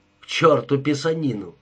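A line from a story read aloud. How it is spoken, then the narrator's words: Irritated. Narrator (Russian): раздраженно произнес Джонни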